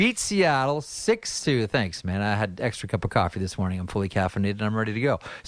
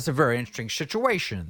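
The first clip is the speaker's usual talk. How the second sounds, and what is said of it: Jimmy Stewart impression. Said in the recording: “as Jimmy Stewart once says ... my second impression of the day from It's a Wonderful Life”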